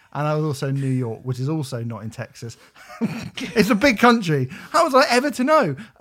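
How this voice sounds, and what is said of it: English accent. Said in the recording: “in an English accent.”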